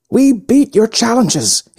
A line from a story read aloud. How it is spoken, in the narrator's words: he screamed